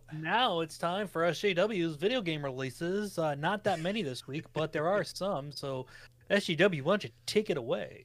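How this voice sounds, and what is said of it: Generic announcer voice. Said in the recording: “My announcer voice. ... It's generic. It's the generic announcer, ... announcer voice.”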